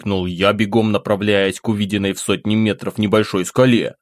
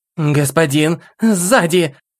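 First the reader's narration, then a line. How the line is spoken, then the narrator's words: Sharp cry. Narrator (Russian): Вскрикнула Кали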